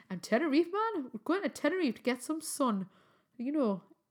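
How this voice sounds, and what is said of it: Put-on Geordie accent. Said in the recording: “I always want to say that in a Geordie accent ... my Geordie accent isn't that great”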